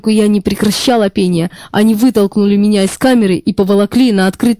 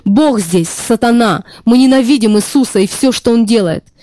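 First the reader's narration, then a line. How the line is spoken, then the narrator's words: Shouting voices. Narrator (Russian): Они кричали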